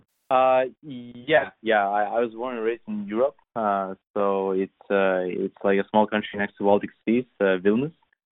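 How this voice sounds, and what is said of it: European-accented English. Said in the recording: “based on your name and accent, I guess somewhere in Europe”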